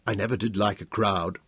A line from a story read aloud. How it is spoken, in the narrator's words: He grinned back at her as icily